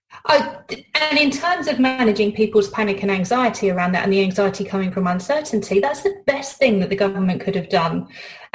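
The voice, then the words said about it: British English accent. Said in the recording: “my accent, I'm British”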